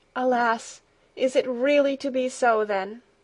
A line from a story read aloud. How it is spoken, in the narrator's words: sighed the grandmother